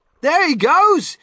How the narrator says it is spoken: somebody shouted

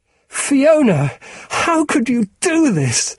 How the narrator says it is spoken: Susie screamed

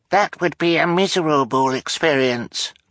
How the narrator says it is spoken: Klaus said, in the highest voice he could manage

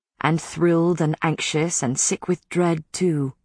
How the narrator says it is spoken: he said softly

